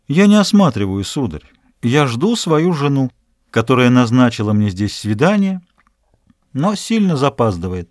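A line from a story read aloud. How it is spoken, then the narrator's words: Submissive reply. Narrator (Russian): Тот ответил покорным тоном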